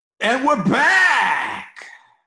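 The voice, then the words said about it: Radio DJ voice. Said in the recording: “give us your best DJ voice”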